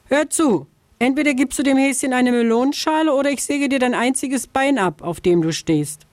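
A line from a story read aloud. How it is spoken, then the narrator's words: Calling from afar. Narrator (German): Schon von Weitem rief sie der Vogelscheuche zu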